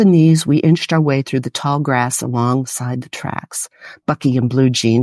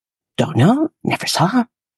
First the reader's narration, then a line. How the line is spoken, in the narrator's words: whispered back